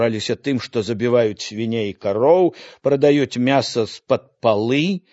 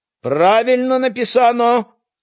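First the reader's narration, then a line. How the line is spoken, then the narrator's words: Shout from audience. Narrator (Belarusian): крыкнул хтосьці з залы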